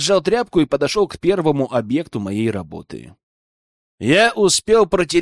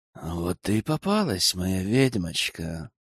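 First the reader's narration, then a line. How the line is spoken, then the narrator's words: Insinuating whisper, close. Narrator (Russian): Вкрадчивый шепот раздался над самым ухом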